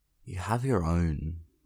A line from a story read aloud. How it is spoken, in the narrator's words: Phil says, sleepily slurring his words